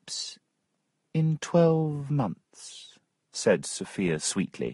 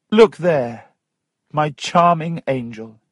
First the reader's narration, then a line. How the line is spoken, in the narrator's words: he cried